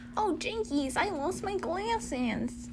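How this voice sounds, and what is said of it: Cartoon character voice. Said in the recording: “That's your Velma accent.”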